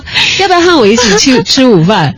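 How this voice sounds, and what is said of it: Imitated Taiwanese Mandarin accent. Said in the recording (Chinese): “来了一个台湾的同事，来了一个东北的同事之后。发现过了一个月，两个人口音互换了”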